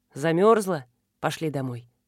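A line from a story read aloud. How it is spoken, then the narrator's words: Very tender. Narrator (Russian): сказал он так ласково, как разговаривал только со своей собакой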